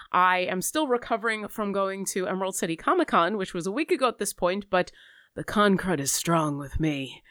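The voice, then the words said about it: Slightly stuffy, congested voice. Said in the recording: “I sound a little stuffy.”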